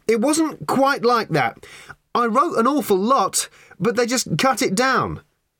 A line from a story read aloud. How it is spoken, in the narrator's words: said Ford, having to shout now above the din